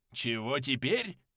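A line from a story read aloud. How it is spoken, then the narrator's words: Grumbling. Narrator (Russian): пробурчал Кёниг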